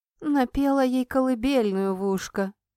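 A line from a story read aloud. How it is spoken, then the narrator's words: Gloomy declaration. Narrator (Russian): заявила ему мрачно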